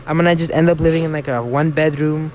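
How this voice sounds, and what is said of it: Slips into Mexican accent. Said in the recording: “Why did I say it like that? ... My Mexican accent came out.”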